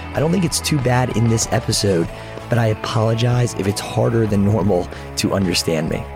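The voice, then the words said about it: Hoarse, strained, partly lost voice. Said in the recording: “As you can probably tell, I've lost my voice.”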